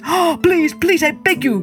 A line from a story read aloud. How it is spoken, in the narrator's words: cried the innkeeper